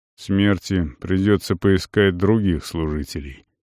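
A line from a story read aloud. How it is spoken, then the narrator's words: Muffled, hollow voice. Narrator (Russian): произнес северянин глухо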